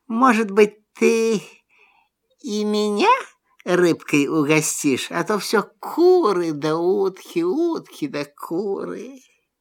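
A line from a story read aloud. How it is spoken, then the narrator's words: Quiet question. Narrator (Russian): Лиса тихо так спрашивает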